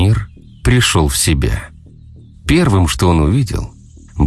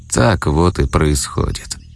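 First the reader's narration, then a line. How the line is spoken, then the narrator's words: Quiet, slightly guilty. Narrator (Russian): тихо и немного виновато произнес Кощей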